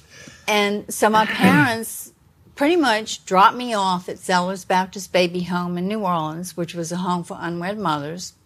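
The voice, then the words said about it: New Orleans accent. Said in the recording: “you're in New Orleans, right? ... You can tell by the accent”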